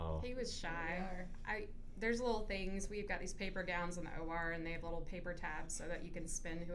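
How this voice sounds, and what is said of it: Usual voice. Nothing is said of it.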